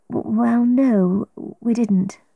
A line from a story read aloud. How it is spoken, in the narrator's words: I said